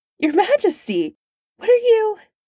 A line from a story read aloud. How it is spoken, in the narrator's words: yelping